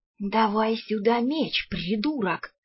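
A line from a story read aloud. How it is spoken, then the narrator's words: Hissed. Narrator (Russian): прошипел советник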